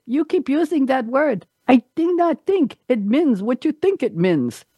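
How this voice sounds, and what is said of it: Inigo Montoya accent impression. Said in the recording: “That was the accent.”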